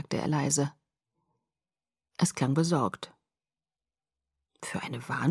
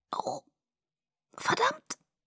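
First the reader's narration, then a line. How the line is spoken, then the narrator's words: Croaking. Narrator (German): krächzte ich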